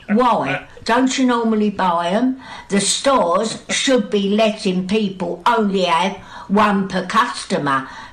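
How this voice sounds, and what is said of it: Strong Cockney accent. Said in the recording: “Don't you love that accent? ... Cockney ... That's full Cockney.”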